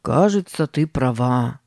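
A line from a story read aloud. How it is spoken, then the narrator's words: Heavy sigh. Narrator (Russian): сказал Сэм, тяжело вздохнув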